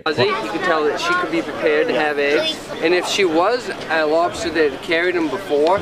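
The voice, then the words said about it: Maine New England accent. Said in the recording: “the Maine accent ... Sounds almost. Uh, Australian ... it's a New England accent”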